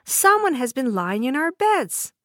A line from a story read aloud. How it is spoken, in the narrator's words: the others cried out too